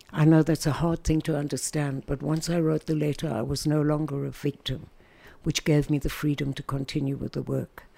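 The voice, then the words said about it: South African accent. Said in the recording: “South Africa, where I come from, obviously. Can't miss my accent, although the Americans think I'm British ... the British are horrified when they hear me”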